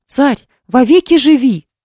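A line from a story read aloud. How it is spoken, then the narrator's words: Group exclaiming. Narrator (Russian): воскликнули они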